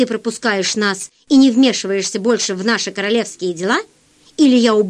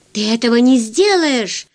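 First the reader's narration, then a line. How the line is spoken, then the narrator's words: Sorceress's exclamation. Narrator (Russian): воскликнула волшебница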